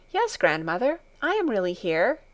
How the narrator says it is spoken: answered Heidi in a reassuring voice

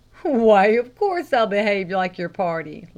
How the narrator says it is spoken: laughed the lay reader

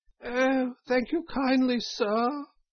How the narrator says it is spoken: said Toad in a feeble voice

